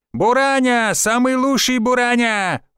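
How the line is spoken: Yelling. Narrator (Russian): орал второй

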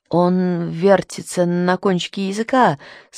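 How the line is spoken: Stammering. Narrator (Russian): сказал он, запинаясь

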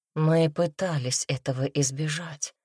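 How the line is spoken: Soft speech. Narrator (Russian): мягко сказал Алекс

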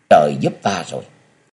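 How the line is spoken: Whisper in ear. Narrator (Vietnamese): Triệu Minh nói khẽ vào tai của Vô Kỵ

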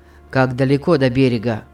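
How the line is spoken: Gloomy question. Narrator (Russian): спросил Питер мрачно

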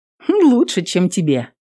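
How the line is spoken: Cheerful. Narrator (Russian): весело сказала Эвелин

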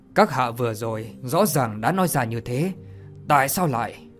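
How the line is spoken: Cold. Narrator (Vietnamese): lạnh lùng mà nói

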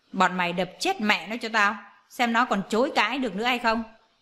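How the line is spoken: Loud angry yell. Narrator (Vietnamese): cô ta quát ầm lên

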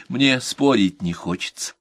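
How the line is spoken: Calm. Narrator (Russian): Ей только и оставалось спокойно, как советовал ее доктор, сказать

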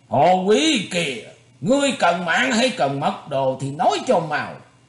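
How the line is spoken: Burly man shouting. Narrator (Vietnamese): Một gã đại hán tài nắm cặp phán hoàng bút cũng quát lên

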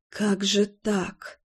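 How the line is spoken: Whisper. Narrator (Russian): шептала я

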